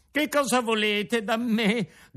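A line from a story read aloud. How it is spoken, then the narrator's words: Frightened shout. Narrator (Italian): gridò Pinocchio tutto impaurito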